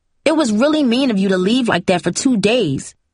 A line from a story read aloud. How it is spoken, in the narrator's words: Cindy said bitterly